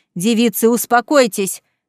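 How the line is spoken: Barked. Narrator (Russian): рявкнул Мэттисон

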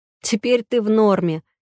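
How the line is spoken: Snorting chuckle. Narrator (Russian): хмыкнул Бархат

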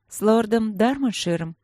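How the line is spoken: Tired clarification. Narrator (Russian): устало уточнила она

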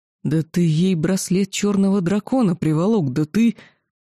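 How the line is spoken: Dragon's growl. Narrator (Russian): какой-то из незнакомых мне драконов прорычал

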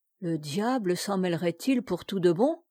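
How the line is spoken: Worried grumbling. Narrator (French): grommela-t-il avec inquiétude

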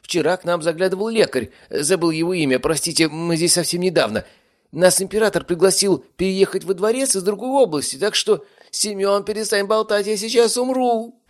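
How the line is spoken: Shouting. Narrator (Russian): прокричала Олеся

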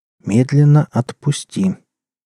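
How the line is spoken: Calm guard's voice. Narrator (Russian): Второй конвойный спокойно сказал

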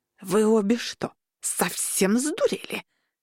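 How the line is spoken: Hissing old woman. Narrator (Russian): прошипела бабуля Фрида

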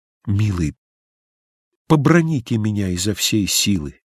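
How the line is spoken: Whispered. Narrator (Russian): шепнула

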